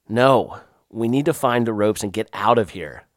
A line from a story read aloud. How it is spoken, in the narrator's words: I said